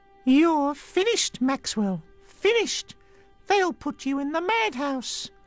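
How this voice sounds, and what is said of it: Ventriloquist dummy character voice. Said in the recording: “Don't do that voice, Archie. Not Hugo.”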